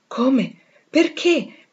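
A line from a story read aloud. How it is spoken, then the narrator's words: Hurried exclamation. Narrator (Italian): esclamò in fretta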